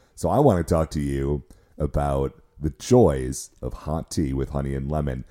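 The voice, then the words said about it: Unusually deep, sick-sounding voice. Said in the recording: “deep voice week”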